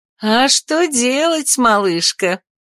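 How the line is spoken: Laughing. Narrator (Russian): рассмеялась

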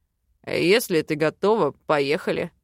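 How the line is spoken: Man's amused snort. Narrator (Russian): хмыкнул мужчина

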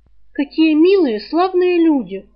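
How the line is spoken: Loud, heartfelt announcement. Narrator (Russian): громко, с чувством объявила Рыска

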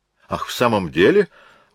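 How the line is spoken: Exclaimed. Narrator (Russian): воскликнул

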